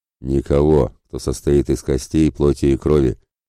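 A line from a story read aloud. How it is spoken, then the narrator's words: Sullen growl. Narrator (Russian): мгновенно насупившись, тут же прорычал в ответ Ратибор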